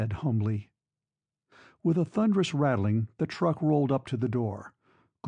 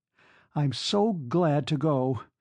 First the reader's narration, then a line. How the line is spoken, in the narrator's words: she cried